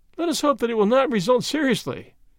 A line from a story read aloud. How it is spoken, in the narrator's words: laughed